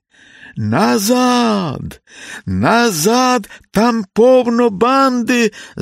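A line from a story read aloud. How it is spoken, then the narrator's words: Breathless shout while running. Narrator (Ukrainian): закричав, добігаючи до брички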